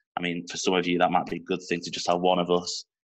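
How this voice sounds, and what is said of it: Northern English Manchester accent. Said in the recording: “two northern voices ... my Manchester accent ... my dulcet tones”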